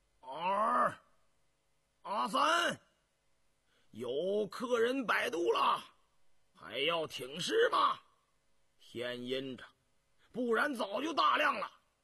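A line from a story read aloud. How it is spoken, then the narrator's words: Old man, coughing shout. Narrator (Chinese): 一个60多岁的老头咳呛着，冲西边板房喊道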